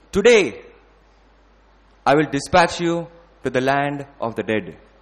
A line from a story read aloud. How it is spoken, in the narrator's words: Ravan shouted